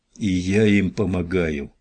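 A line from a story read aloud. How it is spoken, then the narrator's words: Groan. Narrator (Russian): простонал Ричардс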